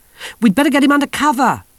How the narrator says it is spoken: shouted Yoles

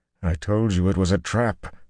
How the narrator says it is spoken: Luzerne groaned

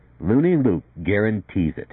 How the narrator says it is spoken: Briskin went on in a firm, clipped voice, a spirited delivery

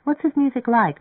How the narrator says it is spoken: Marianne asked nervously

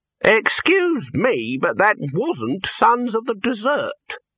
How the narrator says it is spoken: said the man, speaking slowly and deliberately

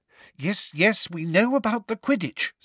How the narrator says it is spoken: said Hermione in a tense voice

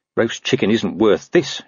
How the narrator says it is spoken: he muttered

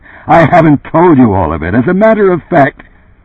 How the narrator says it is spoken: abruptly resumed

